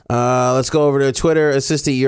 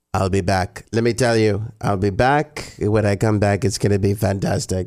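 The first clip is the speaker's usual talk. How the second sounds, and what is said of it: Trump impression sounding like Schwarzenegger. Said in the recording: “your impersonation of Trump makes him sound like Schwarzenegger ... Your Trump sounds way too much like Schwarzenegger.”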